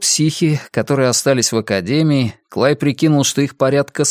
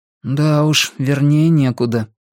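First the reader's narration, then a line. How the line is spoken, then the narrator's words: Gloomy remark. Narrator (Russian): мрачно заметил Джордан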